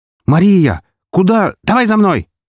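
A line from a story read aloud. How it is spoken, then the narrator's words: Shout. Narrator (Russian): крикнула она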